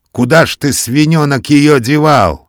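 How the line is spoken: Angry shout. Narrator (Russian): крикнул сердито Матвей Саввич

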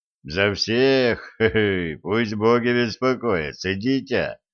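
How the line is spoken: Laughing man. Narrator (Russian): рассмеялся лысый мужик

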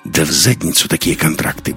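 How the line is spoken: Rude reply. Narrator (Russian): грубо ответил Лекс

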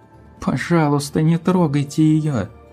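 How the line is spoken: Sobbing. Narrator (Russian): Твайлайт зарыдала

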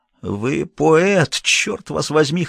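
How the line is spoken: Hoarse rasp. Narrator (Russian): хрипел я

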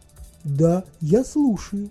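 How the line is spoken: Even machine voice. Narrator (Russian): ответила машина таким же, как всегда, ровным голосом

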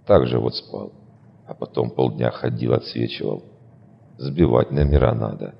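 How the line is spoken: Gruff mutter. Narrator (Russian): буркнул я

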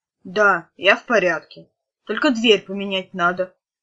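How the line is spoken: Grumbled. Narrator (Russian): пробурчал блондин

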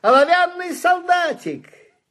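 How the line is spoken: Loud exclamation. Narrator (Russian): кто-то громко воскликнул

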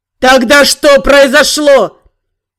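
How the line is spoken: Roaring demon. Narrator (Russian): Взревел демон

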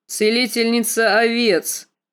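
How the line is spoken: Snort. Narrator (Russian): фыркнул Квота

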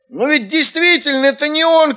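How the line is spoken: Shout. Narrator (Russian): крикнул Бульон

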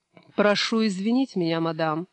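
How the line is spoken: Sarcastic remark. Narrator (Russian): язвительно произнес Стивен

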